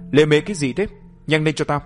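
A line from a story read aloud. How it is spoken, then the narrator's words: Loud barking man. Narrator (Vietnamese): Gã đàn ông đó lớn tiếng quát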